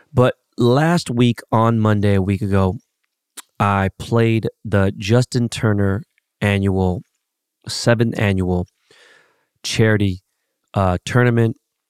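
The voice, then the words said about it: Congested, stuffy nasal voice. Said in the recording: “my nose is so stuck. My fucking sinuses are crazy. I can't breathe. ... I apologize for the voice.”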